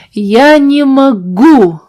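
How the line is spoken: Shouted. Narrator (Russian): закричал он

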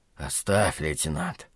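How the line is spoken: Faint wheezing. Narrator (Russian): обморочно просипел Лютый

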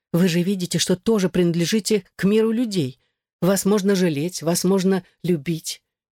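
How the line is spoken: Sudden fervent exclamation. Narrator (Russian): воскликнула она с внезапной горячностью

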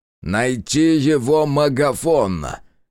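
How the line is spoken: Investigator growling. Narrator (Russian): прорычал дознаватель

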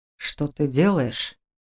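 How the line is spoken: Asked quietly. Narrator (Russian): тихо спросил Раал

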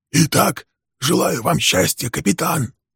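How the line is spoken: Hoarse mutter. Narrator (Russian): хрипло пробормотал Билл

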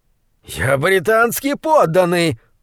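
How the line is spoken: Shrill shout. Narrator (Russian): пронзительно закричал он

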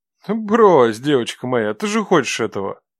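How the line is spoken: Languid voice. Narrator (Russian): произнесенные томным голосом

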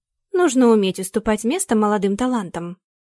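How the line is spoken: Calm. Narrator (Russian): все так же спокойно добавила госпожа Черникина

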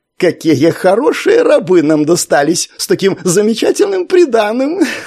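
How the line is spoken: Laughing. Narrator (Russian): Келиец рассмеялся

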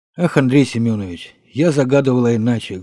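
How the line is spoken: Sad. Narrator (Russian): грустно ответила

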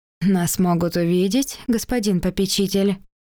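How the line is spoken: Laughing. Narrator (Russian): Рассмеялась Дайна

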